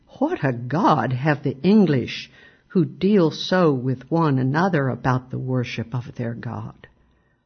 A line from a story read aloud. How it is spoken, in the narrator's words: by an Indian who exclaimed